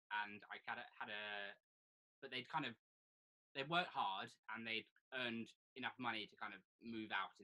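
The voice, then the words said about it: Posh English accent. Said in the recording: “my ridiculous accent from, because I sound like a posh wanker”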